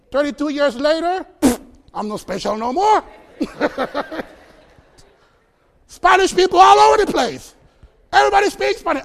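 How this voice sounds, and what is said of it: Costa Rican Spanish accent in English. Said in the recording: “you're from Costa Rica, and you speak Spanish ... They love my accent.”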